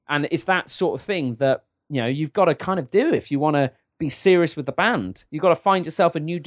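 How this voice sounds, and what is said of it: Usual voice. Nothing is said of it.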